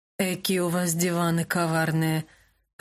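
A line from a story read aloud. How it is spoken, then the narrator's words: Grumbling. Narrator (Russian): проворчал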